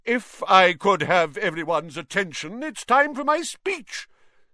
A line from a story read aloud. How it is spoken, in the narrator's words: said loudly